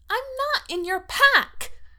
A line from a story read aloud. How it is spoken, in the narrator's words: she says furiously